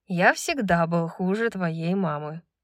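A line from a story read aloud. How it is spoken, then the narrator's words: Calm. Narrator (Russian): спокойно ответил Рандал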